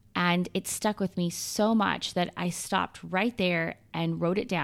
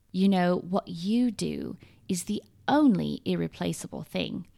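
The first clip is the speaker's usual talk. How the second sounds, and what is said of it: Imitated British accent. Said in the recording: “in her beautiful British accent ... I hope you are not offended by my accent, but I love your accent so much and wanted to try to capture some of it”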